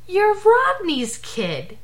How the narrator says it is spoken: he exclaimed

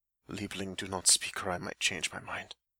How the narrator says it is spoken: he warns quietly, in a voice that doesn't sound much like his own

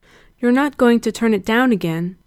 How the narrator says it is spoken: Gerard said nervously

